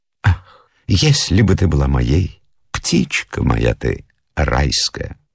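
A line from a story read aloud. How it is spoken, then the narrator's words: Whisper in the ear. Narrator (Russian): прошептать на ушко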